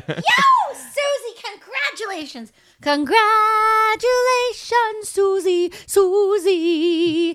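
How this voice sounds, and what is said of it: Excited screaming. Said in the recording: “I'm backing away from the mic because I'm screaming!”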